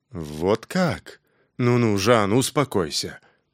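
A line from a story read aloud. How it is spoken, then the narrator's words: Muttering. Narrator (Russian): пробормотал Джулиан Фаррар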